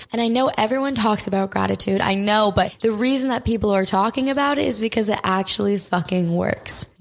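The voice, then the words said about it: Raspy, partly lost voice. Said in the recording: “my voice is kind of gone ... my voice is a little bit raspy”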